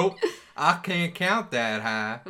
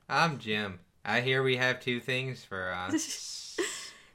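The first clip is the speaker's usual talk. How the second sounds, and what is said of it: Flat monotone hick character voice. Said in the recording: “Why is he a hick? ... Why ain't he a hick? ... he'll be really monotone.”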